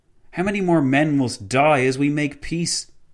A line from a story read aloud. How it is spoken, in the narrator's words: exclaimed the President